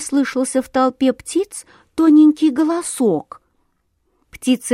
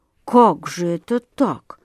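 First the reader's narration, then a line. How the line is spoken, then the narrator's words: Distracted muttering. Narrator (Russian): бормотал он, собираясь с мыслями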